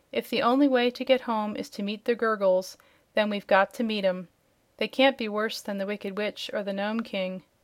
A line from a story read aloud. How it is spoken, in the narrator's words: Dorothy said with a sigh